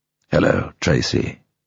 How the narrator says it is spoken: said quietly

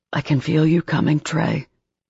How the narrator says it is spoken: Ethan whispered, eyes glazed over in bliss

